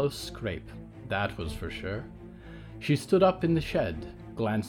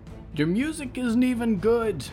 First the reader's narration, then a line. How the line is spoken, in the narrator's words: shouted defiantly